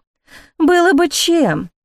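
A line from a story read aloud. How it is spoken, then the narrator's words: Sighing. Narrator (Russian): вздохнула Антонина Феофилактовна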